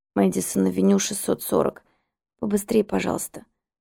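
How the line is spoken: Hoarse rasp. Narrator (Russian): прохрипела я

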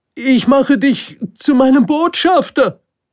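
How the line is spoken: King calling hastily after. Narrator (German): rief der König ihm eilig hinterher

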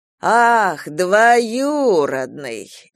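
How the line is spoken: Mocking drawl. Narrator (Russian): издевательски протянул Ревякин

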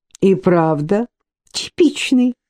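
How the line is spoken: Giggling. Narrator (Russian): хихикнула Марина

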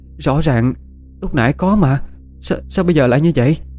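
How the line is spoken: Frightened stammering. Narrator (Vietnamese): Oanh mặt tái mét thấy rõ, miệng lắp bắp nói

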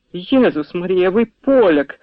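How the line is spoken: Countess crying out. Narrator (Ukrainian): скрикнула графиня

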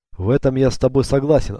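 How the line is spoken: Plain. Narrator (Russian): ответил он

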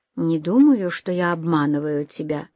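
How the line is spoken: Quiet reply. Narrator (Russian): тихо ответил

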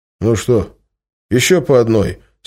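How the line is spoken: Plain question. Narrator (Russian): спросил Миша

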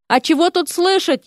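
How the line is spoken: Loud sobbing, pregnant woman. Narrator (Russian): еще громче зарыдала девушка с животом

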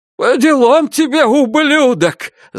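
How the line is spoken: Shout. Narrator (Russian): закричал отец Ребекки Клайн

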